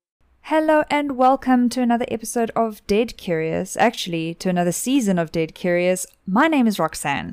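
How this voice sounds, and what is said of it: South African accent. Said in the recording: “South Africa, which is where we're from, so that's what the accent is”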